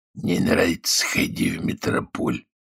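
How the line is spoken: Hoarse rasp. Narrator (Russian): прохрипел кто-то невидимый

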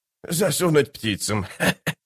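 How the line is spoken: Giggling. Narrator (Russian): хихикнул Штырь

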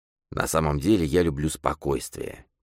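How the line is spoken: Quiet. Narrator (Russian): тихо сказал сарыбаш

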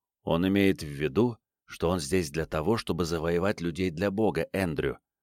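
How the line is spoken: Woman whispering. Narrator (Russian): прошептала своему сыну другая женщина

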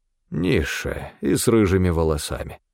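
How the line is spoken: Muttered. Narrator (Russian): пробормотал Стефан

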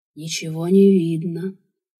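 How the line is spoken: Purring. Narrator (Russian): Вновь мурлыкнул он

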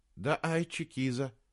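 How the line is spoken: Quiet. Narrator (Russian): тихо сказал Саймон

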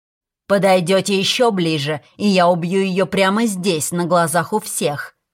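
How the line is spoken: Menacing growl. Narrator (Russian): прорычал Фейри

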